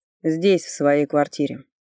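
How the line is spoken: Calm. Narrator (Russian): спокойно отозвался тот

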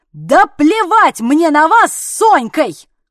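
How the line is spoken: Yelling. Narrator (Russian): Заорала я

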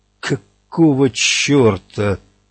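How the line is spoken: Dull, forced out. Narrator (Russian): тупо выдавил Эдди

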